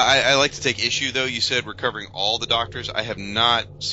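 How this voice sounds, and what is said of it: Usual voice. Nothing is said of it.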